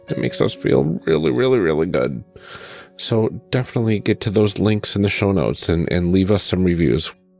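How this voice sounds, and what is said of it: Sick-sounding voice. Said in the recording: “give my sick voice a rest”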